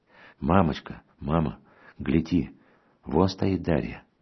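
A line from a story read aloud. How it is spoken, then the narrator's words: Whispered exclamation. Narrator (Russian): шепотом воскликнула, наконец, сестра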